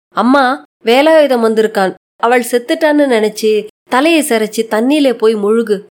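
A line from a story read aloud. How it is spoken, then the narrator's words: Plain. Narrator (Tamil): என்றார்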